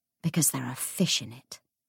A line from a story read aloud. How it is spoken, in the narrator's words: murmured Anna